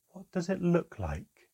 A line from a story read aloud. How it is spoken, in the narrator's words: Manquer replied, her voice still calmly melodic